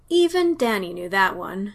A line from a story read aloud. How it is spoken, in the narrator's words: he sighed